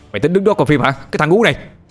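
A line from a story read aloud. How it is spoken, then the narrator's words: Shouting. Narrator (Vietnamese): Người đó hét lớn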